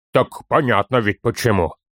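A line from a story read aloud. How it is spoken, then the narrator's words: Grumble. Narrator (Russian): буркнул Торин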